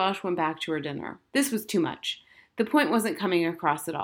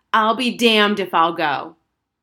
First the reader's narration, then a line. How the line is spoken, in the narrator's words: Harriet took a deep breath, and in a loud voice, as loud as she could, she yelled